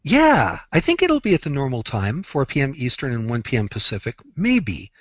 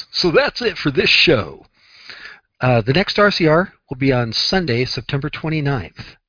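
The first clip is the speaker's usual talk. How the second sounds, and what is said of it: Radio DJ announcer voice. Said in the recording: “I got to do it in my DJ voice.”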